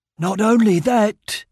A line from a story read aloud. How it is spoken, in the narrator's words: rasped